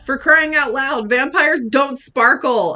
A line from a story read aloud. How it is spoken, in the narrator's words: I shouted